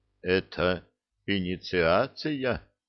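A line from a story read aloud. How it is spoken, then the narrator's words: Dead flat voice. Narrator (Russian): мертвым голосом спросил Ланик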